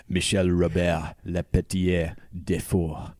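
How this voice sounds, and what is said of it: Put-on French accent. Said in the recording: “I could just say it in a French ... accent ... that sounds way better than yeah. anything I could come up with. Beautiful.”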